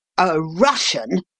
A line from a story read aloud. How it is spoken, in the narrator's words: Cleek's cry was like to nothing so much as the snarl of a wild animal